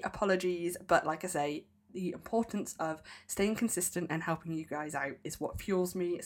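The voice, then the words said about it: Slightly off, ill-sounding voice. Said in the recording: “my voice is still a little bit funny ... despite being ill”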